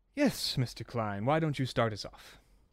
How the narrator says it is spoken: lets out a sigh and just says

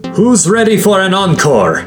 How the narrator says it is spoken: the Kikte yelled from high above

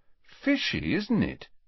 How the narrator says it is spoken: he said in an undertone to Ron

